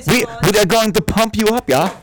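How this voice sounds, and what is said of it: Exaggerated German-style comedy accent. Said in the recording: “So you want to just say Hans and Franz ... So if you ever want to talk in an accent, mimic SNL”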